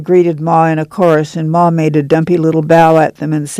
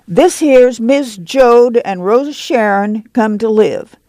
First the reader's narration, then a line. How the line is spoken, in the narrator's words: Jesse said loudly